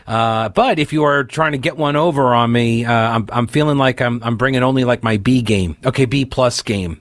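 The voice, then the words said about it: Rough, congested under-the-weather voice. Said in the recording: “I'm still kind of got a little bit of it left over, still kind of up in my head. It's like medicine head, swimminess in the head, a little bit of drainage going on... if I sound kind of rough.”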